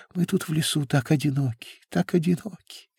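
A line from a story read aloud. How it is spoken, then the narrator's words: Breathless murmur. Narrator (Russian): едва дыша пробормотала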